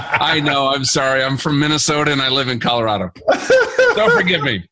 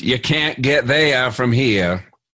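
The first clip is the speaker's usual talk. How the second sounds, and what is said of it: Poor imitation of a Maine accent. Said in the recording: “That's a really bad Maine accent.”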